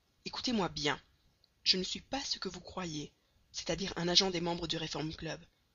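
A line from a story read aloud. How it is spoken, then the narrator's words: Curt voice. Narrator (French): dit Fix d'une voix brève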